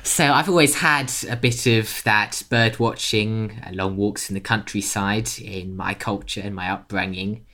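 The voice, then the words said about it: British accent. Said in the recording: “I'm British by birth. You can probably tell from the accent.”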